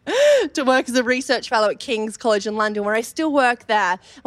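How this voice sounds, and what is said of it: Australian accent. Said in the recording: “you may have picked up my Australian accent ... I thought it was Southend.”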